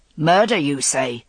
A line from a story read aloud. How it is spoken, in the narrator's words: Boleyn said in his thick, harsh voice